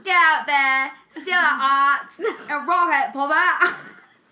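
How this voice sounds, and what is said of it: Put-on Australian accent. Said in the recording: “Maybe it's because it wasn't in an accent. ... your Australian accent was any good”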